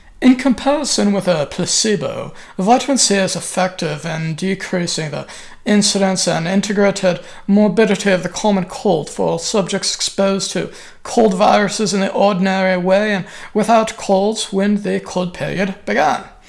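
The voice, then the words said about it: Put-on non-American accent. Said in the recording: “that's probably an inappropriate accent for Linus Pauling. I'm pretty sure he was an American guy.”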